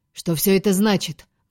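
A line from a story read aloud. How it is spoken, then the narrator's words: Menacing demand. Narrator (Russian): грозно вопрошал Тиберий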